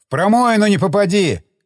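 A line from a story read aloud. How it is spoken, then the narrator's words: Shout. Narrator (Russian): крикнул я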